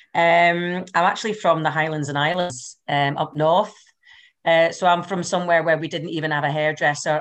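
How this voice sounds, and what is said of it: Scottish Highland accent. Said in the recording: “I do have a Scottish accent, but I don't talk too fast”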